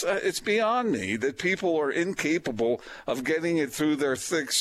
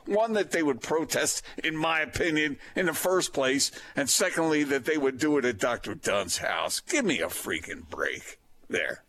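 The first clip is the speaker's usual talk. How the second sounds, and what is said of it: Imitates another person's voice. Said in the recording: “That's my Austin impersonation.”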